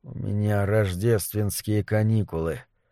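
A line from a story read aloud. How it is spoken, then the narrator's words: Barely audible. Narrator (Russian): сказал он, но едва слышно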